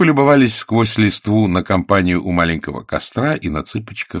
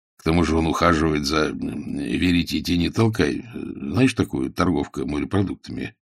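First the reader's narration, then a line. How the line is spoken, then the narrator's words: Whisper. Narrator (Russian): Сибилла прошептала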